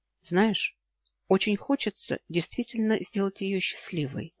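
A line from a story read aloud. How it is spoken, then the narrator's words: Quiet reply. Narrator (Russian): тихо ответил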